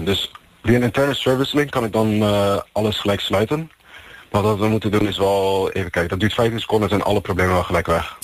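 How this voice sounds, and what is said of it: Slight English foreign accent in Dutch. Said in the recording (Dutch): “je hoort toch wel een beetje een Engels accentje erin ... het is wel een buitenlands accent”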